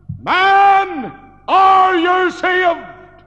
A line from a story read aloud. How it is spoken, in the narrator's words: he cried out